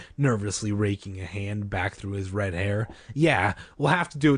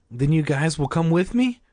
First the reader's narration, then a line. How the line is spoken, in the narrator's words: Greg asked eagerly